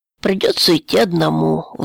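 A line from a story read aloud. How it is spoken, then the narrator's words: Sighing. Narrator (Russian): вздохнул Геша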